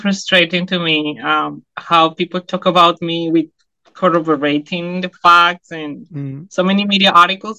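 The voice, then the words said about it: Strong non-native English accent. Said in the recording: “my accent is hard to understand ... my accent is very rich. I'm not a native speaker.”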